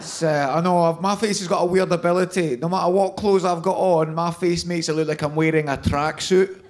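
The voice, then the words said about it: Scottish accent, throaty not nasal. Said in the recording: “You can probably tell from my accent, I'm from Scotland. I'm from Glasgow, but I don't sound that Glaswegian. ... I talk through my throat, and that's much more of an Edinburgh thing”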